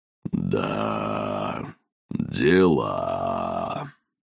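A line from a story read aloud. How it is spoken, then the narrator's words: Creaky voice. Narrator (Russian): проскрипел Тортик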